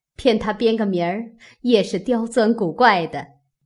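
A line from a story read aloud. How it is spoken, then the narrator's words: Crowd laughing. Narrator (Chinese): 众人听了都笑起来，说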